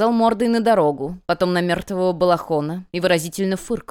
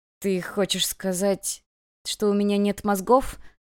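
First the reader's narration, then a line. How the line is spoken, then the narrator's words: Quiet thin boy's voice. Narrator (Russian): спросил мальчик тихим тонким голосом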